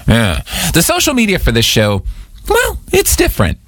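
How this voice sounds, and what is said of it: Voice goes very high. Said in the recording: “my voice went so high”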